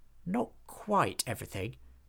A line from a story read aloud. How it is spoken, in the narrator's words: muttered Hobgob